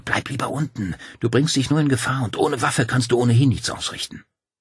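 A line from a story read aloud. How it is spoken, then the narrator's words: Hissed. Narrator (German): zischte sie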